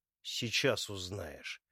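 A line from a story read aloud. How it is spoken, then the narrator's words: Oddly calm reply. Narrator (Russian): как-то слишком спокойно отвечает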